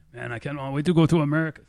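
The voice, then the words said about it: Poor attempt at Russian accent. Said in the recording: “That's supposed to be my Russian. That was horrible. ... That was really bad.”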